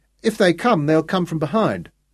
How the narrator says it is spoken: Saul announced cheerfully

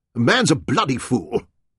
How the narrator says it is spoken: Penrod snapped

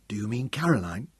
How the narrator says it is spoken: Tom's voice sank to a whisper

